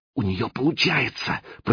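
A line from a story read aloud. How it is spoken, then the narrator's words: Whispered. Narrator (Russian): прошептала Катя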